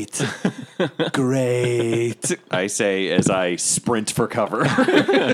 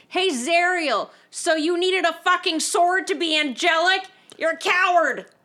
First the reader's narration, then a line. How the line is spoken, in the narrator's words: I just yell out